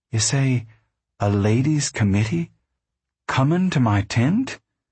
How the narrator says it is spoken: Ma said uneasily

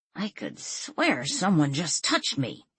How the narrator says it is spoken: he muttered

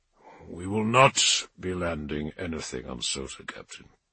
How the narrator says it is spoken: he said flatly

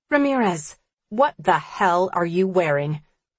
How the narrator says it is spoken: snaps

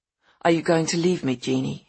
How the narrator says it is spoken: he'd said

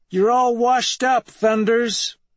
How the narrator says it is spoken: Dupre, who yells out

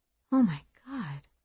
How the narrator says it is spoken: Cece said softly

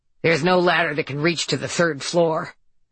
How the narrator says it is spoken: Nurse Lean said in a huffy, aggrieved voice

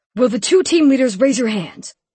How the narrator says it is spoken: He bellowed

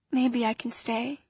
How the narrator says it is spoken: she whispered

